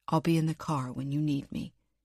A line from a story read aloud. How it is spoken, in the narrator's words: he said quietly